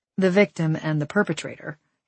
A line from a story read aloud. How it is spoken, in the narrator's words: Amy said